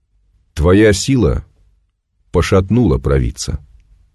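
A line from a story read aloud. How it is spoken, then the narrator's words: Clipped, measured. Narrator (Russian): снова отчеканил солдат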